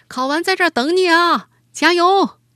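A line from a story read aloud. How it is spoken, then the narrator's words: Shouting. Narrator (Chinese): 穿着防护服的司机 冲着他喊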